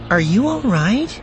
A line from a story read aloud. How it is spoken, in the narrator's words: Juhir asked anxiously